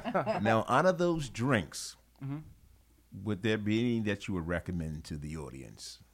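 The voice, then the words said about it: Deep radio announcer voice. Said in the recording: “This is my new radio voice I'm rocking with.”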